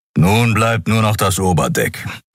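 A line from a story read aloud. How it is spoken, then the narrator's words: Growling. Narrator (German): knurrte er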